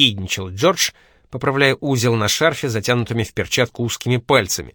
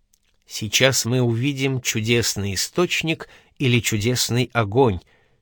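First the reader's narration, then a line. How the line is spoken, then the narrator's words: Quiet discreet whisper in ear. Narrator (Russian): тихо прошептал Джордж на ухо Пьетро, не желая обижать гостеприимных греков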